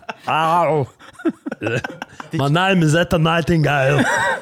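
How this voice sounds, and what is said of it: Arnold Schwarzenegger impression. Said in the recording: “She's got a weird voice... I don't think I've ever tried to do a fucking Arnie before... But you nailed it... That was quite good.”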